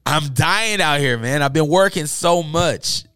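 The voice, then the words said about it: Hoarse, strained, fading voice. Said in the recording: “I'm losing my voice. I've been talking all day ... this is not my normal voice ... My voice is gone.”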